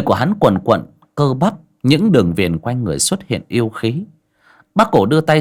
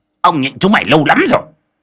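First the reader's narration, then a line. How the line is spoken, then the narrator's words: Roar. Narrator (Vietnamese): Khôi gầm lên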